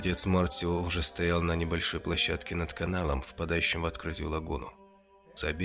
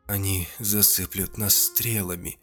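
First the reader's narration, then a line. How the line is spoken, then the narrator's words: Trembling voice. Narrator (Russian): дрожащим голосом произнес Анжела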